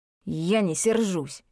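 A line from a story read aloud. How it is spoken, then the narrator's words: Very angry. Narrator (Russian): очень сердито сказал он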